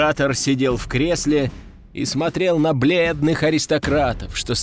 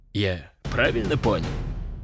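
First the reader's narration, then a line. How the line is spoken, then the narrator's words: Deep bass. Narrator (Russian): Пробасил император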